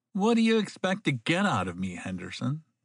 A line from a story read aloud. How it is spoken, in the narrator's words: sneered at him